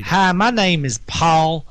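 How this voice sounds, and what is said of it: Put-on Southern US accent. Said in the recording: “read it in a southern accent ... Sounds really good in a southern accent.”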